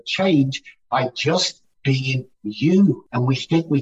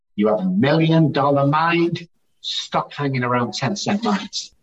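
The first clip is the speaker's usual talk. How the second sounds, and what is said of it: Put-on English accent. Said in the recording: “in English, with the English accent”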